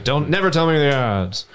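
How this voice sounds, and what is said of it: Impression of a Han Solo line. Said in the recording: “That's pretty good impression.”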